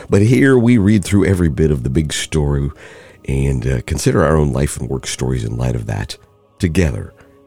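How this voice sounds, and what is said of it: Voice still sounds ill. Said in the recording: “kind of back among the land of the living almost. You can probably hear it in my voice.”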